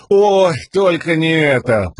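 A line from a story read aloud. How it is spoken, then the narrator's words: Groaning. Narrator (Russian): простонал Лопан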